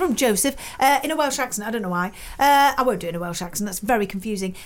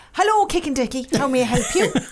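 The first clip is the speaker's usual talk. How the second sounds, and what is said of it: Put-on Irish accent. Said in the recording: “I don't know why I want to do it in the Irish accent.”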